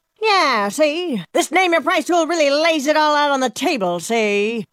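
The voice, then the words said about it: 1930s gangster voice. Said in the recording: “my impression of a 1930s gangster”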